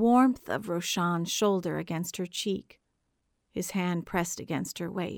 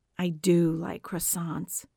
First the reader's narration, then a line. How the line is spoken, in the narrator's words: Roshan sighs